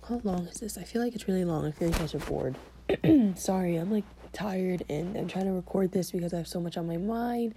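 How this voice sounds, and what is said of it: Strained, failing sick voice. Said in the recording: “I'm losing my voice because I'm getting sick again ... My voice hurts so bad.”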